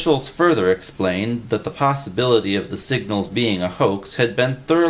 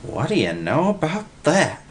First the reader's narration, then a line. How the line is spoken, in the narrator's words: Willie gasped